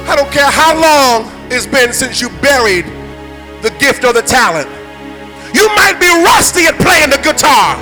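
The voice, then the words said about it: New York accent. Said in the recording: “I know I got a New York accent.”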